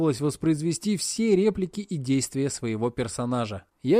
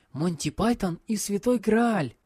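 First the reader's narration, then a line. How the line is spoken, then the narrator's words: Joyful whisper. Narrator (Russian): радостно прошептал Сёто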